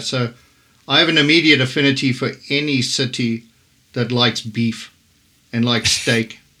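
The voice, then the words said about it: Southern African accent. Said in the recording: “as you can probably detect from the accent. I'm from Southern Africa.”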